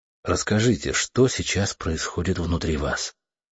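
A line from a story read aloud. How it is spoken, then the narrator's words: Gentle supportive speech. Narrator (Russian): сказал я мягко, стараясь поддержать ее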